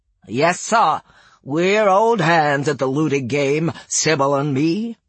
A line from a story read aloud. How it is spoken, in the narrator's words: rasped